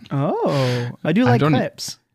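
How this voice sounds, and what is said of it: Put-on French accent. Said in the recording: “you have such a good French accent”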